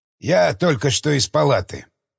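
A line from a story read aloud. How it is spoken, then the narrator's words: Plain. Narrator (Russian): сказал Ашер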